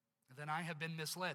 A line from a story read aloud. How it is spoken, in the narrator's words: said the king